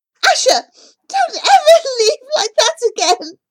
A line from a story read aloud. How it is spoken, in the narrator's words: shouts